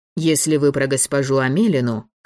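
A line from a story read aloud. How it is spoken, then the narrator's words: Pleased smirking hum. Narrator (Russian): хмыкнул довольный вопросом Львов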